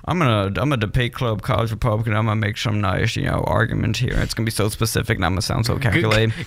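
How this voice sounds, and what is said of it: Imitates a calculated debater's voice. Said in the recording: “Good Ben Shapiro impression. ... That sounded exactly like him. ... On point.”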